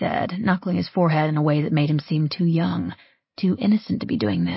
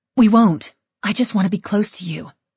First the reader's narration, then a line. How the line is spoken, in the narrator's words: I said